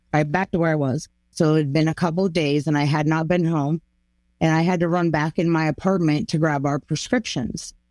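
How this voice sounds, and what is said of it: Hoarse voice. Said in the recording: “My voice is so, you can hear how hoarse I am.”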